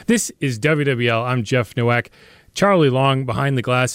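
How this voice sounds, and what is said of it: Strained voice, losing his voice. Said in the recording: “losing my voice, but that's what allergies are”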